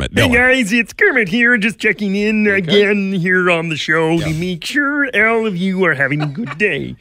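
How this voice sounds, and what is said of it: Kermit the Frog voice impression. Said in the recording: “just talk like Kermit”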